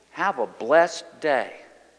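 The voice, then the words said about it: Slow, deliberate speech. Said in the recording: “say it slowly,”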